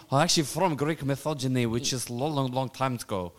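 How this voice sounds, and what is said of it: Very unusual put-on character accent. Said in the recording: “my accent is very, very unusual”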